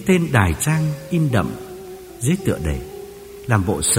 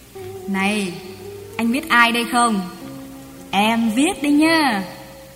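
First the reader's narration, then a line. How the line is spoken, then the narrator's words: Cheerful confident. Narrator (Vietnamese): nàng nói bằng giọng vừa hớn hở vừa tự tin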